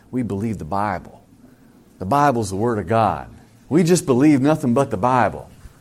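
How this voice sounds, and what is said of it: Put-on Southern accent. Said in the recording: “Sorry for my southern accent there”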